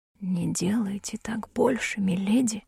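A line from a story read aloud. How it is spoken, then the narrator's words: Barely audible. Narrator (Russian): произнес адвокат едва слышно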